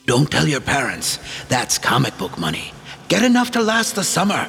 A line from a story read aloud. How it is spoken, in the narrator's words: His grandfather whispering in his ear